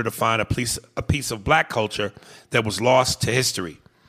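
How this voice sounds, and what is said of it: Usual voice. Nothing is said of it.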